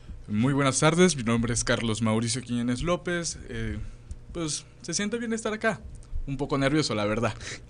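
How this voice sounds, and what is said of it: Radio announcer voice. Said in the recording (Spanish): “tienes voz de locutor”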